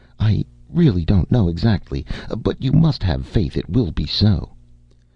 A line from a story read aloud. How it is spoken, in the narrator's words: she faltered